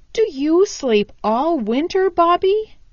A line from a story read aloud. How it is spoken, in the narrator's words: He asked eagerly